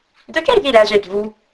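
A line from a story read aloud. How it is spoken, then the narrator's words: Plain. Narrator (French): demanda-t-il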